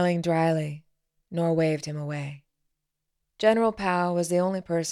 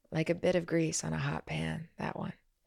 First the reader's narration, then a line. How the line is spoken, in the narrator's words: she said quietly